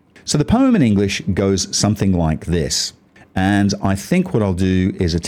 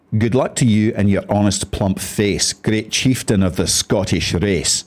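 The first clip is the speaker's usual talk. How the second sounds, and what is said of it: Put-on Scottish accent. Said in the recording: “attempt to read this in a Scottish accent to give it more of a Scottish feel”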